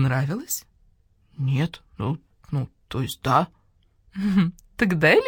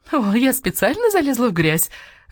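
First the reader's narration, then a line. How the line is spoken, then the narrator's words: Laughing marquise. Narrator (Russian): засмеялась маркиза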